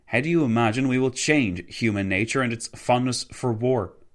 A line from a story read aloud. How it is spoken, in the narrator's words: Wilson nearly shouted